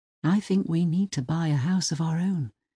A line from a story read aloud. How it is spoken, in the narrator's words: she said softly